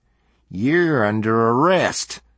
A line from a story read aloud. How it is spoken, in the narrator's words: the small man growled menacingly